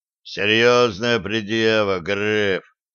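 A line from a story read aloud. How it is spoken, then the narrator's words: Low booming voice. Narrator (Russian): прогудел Кабан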